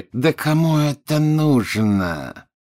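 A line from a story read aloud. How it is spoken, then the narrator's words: Through gritted teeth. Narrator (Russian): процедил Малфой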